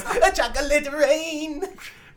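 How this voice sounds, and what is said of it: High-pitched, whiny singing voice. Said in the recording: “his high pitched, whiny voice”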